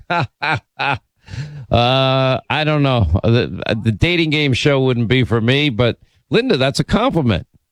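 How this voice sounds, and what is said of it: Thick New York accent. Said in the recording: “you love a thick New York accent”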